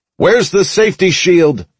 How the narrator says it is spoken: I shouted

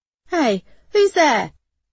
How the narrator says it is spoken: he shouted, his voice emerging high-pitched and panicky

